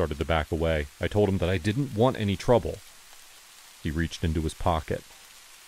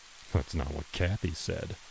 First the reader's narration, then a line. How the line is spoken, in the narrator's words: he muttered